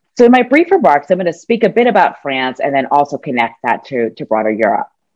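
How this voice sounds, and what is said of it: American English accent. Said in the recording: “as a non-European, maybe obviously from the accent, and as a U.S. citizen”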